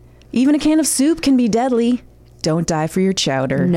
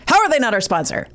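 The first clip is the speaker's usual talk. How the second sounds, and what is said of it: Imitates another person's voice, angry ending. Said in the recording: “I just sounded like Jimmy. Didn't I? Like that anger at the end ... that's my Jimmy Pardo impression”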